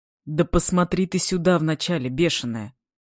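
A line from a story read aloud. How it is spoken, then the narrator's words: Stern command. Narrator (Russian): Строго, без намека даже на усмешку, приказал Денис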